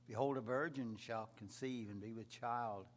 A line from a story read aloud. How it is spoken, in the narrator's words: Isaiah said